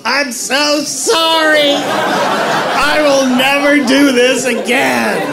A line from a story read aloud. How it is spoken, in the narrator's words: I yelled out the window